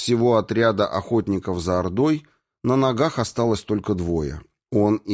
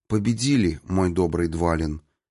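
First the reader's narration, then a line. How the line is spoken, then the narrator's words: Soft reply. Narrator (Russian): тихонько ответила Ирина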